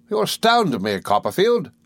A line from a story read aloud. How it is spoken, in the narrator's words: cried Mr